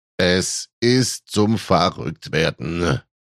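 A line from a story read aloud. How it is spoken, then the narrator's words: Indignant groan. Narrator (German): stöhnte Papi entrüstet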